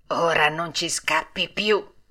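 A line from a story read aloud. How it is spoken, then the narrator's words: Two harsh menacing grumbles. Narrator (Italian): le solite 2 vociacce che gli brontolarono minacciosamente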